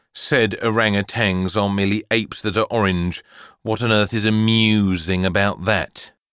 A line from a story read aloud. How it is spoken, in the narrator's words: His mother sighed and tried again